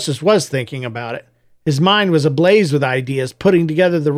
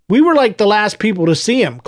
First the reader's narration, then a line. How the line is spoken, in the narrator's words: Clovis said excitedly